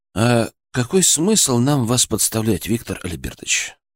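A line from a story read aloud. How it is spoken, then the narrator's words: Soft, sympathetic, soothing. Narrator (Russian): Я говорил мягко, почти сочувственно, как говорят с пациентом в остром бреду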